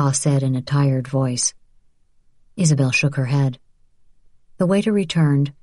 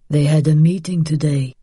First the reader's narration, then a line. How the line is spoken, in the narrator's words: her father said